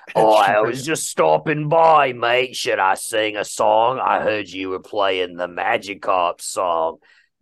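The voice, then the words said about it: Put-on British accent. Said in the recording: “I'm going with have a British accent. ... Oh, I can do that now.”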